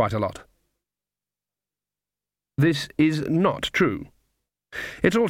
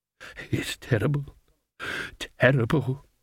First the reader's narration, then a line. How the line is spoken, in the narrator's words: muttered